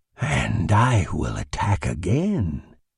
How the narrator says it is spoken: whispered Limio's brain, in the same magnetic rhythm of the impulses that flowed from the ship

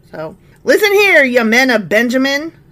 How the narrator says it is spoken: Saul shouted to his officers

